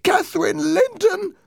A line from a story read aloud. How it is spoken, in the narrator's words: the voice cried